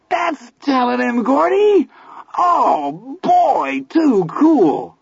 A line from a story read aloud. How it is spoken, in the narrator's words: Teddy screamed gleefully